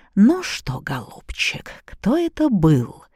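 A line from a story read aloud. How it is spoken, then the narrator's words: Thoughtful muttering. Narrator (Russian): задумчиво пробормотала Софья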